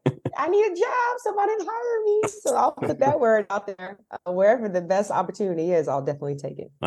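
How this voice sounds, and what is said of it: Smooth radio-style speaking voice. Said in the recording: “you got the radio voice”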